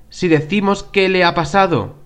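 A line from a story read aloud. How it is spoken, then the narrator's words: Plain. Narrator (Spanish): dijo Ali Baba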